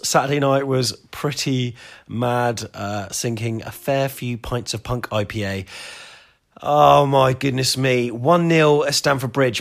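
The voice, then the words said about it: Hoarse voice. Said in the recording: “Sound a bit hoarse.”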